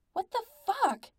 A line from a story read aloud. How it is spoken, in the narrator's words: Pete's brain shouted